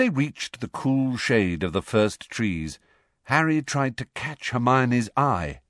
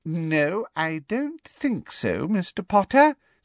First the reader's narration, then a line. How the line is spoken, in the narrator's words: said Umbridge sweetly